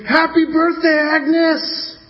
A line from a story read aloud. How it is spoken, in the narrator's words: everyone screamed